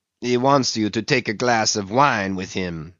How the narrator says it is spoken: said the interpreter

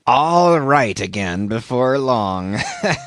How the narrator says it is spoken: laughed the stranger, with a solemnly derisive sort of laugh

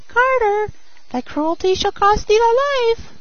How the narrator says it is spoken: the sparrow cried

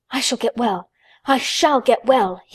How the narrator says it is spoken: he cried out

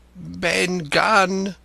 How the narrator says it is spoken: he answered, and his voice sounded hoarse and awkward, like a rusty lock

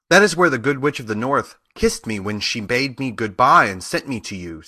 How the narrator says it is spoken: said the girl

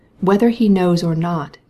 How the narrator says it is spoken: he said, in a calm but authoritative voice

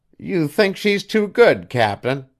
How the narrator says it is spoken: sneered Mrs

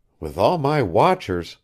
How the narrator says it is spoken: faltered

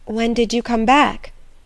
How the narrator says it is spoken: asked Edna in an unsteady voice

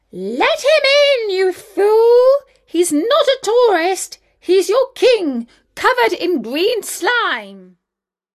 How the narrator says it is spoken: the wicked queen opened her bedroom window and hollered out

